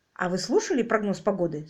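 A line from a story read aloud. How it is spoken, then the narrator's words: Plain. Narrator (Russian): спросил Квиллер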